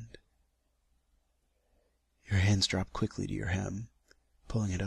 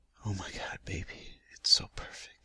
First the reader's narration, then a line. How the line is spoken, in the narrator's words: I whisper